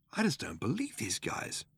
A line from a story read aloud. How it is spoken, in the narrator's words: muttered Ford